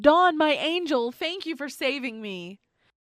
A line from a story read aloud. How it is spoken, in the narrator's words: yelled